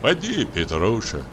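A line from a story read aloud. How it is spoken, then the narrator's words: Soft fatherly voice. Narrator (Russian): сказал Денис мягким отеческим голосом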